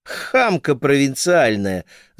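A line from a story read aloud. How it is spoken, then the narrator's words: Laughing. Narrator (Russian): засмеялась сестра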